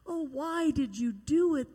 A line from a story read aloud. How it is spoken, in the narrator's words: they groaned